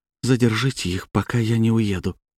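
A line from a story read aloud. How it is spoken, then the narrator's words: Whispering. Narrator (Russian): шептала рыженькая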